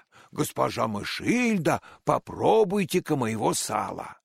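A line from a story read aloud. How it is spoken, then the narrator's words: Exclaimed. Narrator (Russian): она воскликнула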